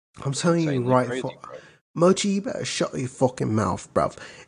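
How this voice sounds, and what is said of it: Put-on British accent. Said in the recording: “I'm pretty good at British accents”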